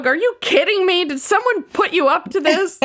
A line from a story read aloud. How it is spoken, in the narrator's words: Charlie yells at the dog